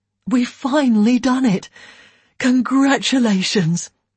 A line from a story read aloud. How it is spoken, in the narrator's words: he said to Elaine with a big sigh